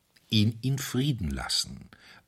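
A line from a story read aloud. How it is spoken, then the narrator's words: Calm priest's answer. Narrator (German): antwortete ruhig der Priester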